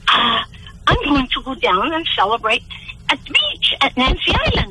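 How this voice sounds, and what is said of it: Italian-influenced accent. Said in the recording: “I hear a slight bit of an accent... You've got a strong accent for a Torontonian... Heavy Italian influence on you”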